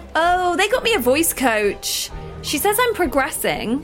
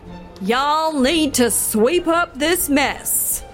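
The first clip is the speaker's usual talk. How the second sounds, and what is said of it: Poor put-on Southern accent. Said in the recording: “dropping your accent? ... Girl, the accent is trash.”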